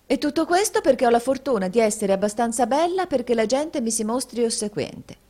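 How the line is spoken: Woman's exclamation. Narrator (Italian): esclamò la signorina Price

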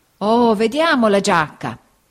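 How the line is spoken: Old man exclaiming. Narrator (Italian): esclamò il vecchio

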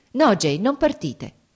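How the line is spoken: Exclaiming. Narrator (Italian): esclamò

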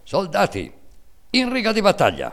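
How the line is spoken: Stern military command shout. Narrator (Italian): atteggiandosi a giudice severo e inesorabile ... gridando in tono di comando militare

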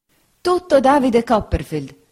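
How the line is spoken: Woman exclaims. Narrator (Italian): esclamò la signora Bezze

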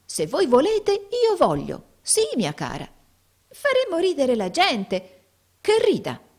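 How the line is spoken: Lively exclamation. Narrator (Italian): esclamò Tim vivamente

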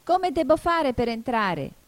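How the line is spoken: Louder shout. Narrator (Italian): gridò Alice più forte

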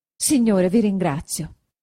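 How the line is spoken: Doubly happy exclamation. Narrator (Italian): esclamò Agnese doppiamente contenta

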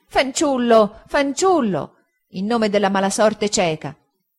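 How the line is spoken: Impatient exclamation. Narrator (Italian): esclamò la signorina Mosché torcendosi con impazienza e agitandosi

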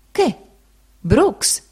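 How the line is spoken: No. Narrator (Italian): Confuso e impacciato

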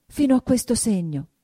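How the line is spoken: Trembling embarrassed exclamation. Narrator (Italian): esclamò, arrossendo e tremando

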